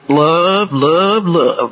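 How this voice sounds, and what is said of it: Put-on Texas accent. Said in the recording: “with that Texas accent. We don't say it like that up where I come from.”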